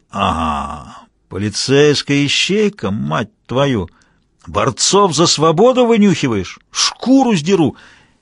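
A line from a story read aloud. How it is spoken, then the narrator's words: Lazy drawl. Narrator (Russian): Мазур лениво протянул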